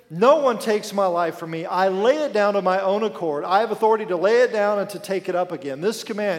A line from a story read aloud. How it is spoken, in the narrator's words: he said